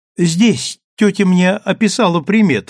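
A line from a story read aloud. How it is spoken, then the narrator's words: Young woman's exclamation, promising. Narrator (Russian): воскликнула девушка, и ее слова прозвучали для Ивернева как обещание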